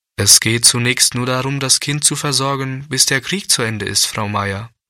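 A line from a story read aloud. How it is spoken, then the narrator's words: Plain. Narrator (German): sagte der Pastor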